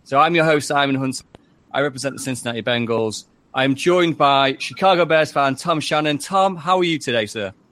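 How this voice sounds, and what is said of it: English Manchester/Derbyshire accent. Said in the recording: “It's a weird accent that's kind of Manchester / Derbyshire, where I'm from. So it is my accent”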